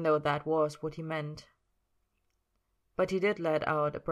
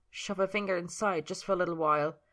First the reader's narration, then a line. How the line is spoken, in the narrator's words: Merlin pushed back a bit more, whining because he didn't want to say